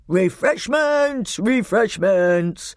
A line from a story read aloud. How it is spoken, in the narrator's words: roared the old man